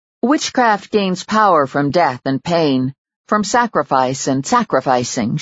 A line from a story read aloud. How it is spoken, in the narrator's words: she told him coolly